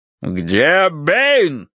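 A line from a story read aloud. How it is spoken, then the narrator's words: Deep bass voice. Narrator (Russian): пробасил полковник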